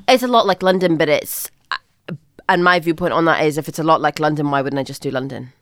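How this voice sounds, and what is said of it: Mixed Northern Irish and Scottish accent. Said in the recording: “Grew up in Northern Ireland ... uni and a little bit of high school in Scotland. So I have like a mix of both accents.”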